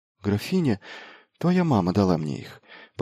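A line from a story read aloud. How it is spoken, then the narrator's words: Whispered reply. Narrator (Russian): прошептала она в ответ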